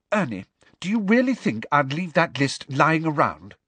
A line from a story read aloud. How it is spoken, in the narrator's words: said Hermione testily